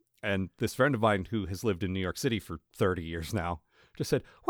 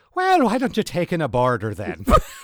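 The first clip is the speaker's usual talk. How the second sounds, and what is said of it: Put-on Irish accent. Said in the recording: “The Irish accent”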